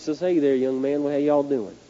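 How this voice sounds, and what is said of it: Southern American accent. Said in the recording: “his southern accent”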